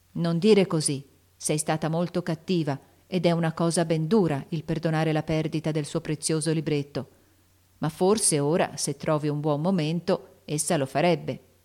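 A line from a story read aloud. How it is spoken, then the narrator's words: Plain. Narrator (Italian): disse Meg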